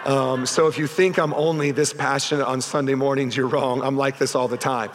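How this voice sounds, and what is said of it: Strained, worn voice. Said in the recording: “you can tell by my voice, I was very much into the game myself... I think I might've pulled something right here last night as I was cheering so hard”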